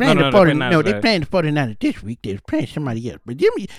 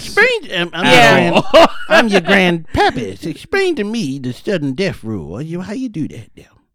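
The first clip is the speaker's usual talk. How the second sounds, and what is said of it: Old grandparent character voice. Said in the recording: “My grandma does not sound like this. ... I suck an impersonation.”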